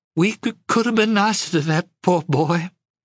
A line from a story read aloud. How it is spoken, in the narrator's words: she sobbed